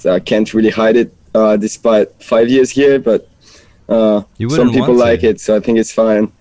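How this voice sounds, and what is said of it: French accent. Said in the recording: “you might have noticed the accent ... it's my French accent”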